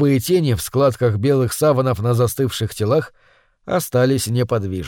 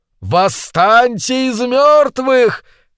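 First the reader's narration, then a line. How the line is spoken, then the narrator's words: Shouting in a speech. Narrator (Russian): кричал он в выступлении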